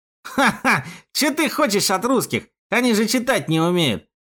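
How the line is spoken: Snide jab. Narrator (Russian): ехидно бросил

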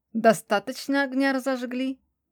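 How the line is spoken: Snide question. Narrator (Russian): ехидно спросил

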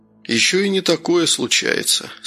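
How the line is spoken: Calm. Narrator (Russian): спокойно проговорил Новиков

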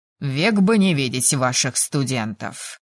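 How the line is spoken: Growling. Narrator (Russian): прорычал тот

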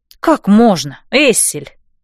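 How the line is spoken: Scoffing snort. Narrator (Russian): фыркнула я

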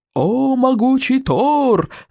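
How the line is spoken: Yelling old madman. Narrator (Russian): заорал старый псих

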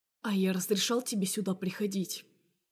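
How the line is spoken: Deceptively calm question. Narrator (Russian): спрашивает он обманчиво спокойным тоном

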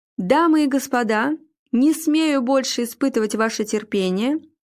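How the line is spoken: Loud announcement. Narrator (Russian): громко объявил ведущий

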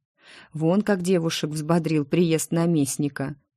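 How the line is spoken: Giggle. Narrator (Russian): хихикнула

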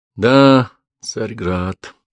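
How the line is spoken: Regretful sigh. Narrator (Russian): вздохнул Петр с сожалением

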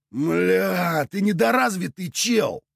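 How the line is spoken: Howled. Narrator (Russian): взвыл Клобек

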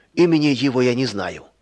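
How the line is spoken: Plain. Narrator (Russian): ответил хозяин

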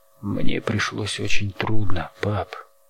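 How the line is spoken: Hoarse rasp. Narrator (Russian): Прохрипел Перри

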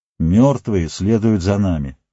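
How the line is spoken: Calm. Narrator (Russian): спокойно промолвил

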